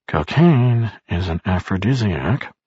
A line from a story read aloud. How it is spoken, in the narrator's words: Barris muttered half to himself